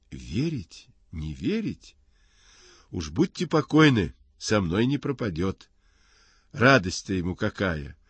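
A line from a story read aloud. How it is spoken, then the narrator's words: Joyful. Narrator (Russian): радостно отвечает Горкин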